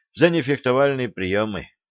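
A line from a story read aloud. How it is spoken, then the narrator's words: Dejected sigh, young man. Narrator (Russian): удрученно вздохнул юноша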